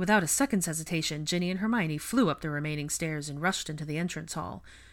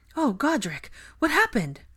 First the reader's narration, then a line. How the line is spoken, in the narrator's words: Hermione cried